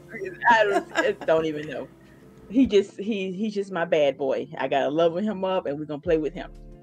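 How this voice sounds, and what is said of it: Southern accent. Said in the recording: “my bad Southern accent”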